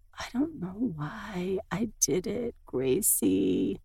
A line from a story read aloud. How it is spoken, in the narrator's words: whisper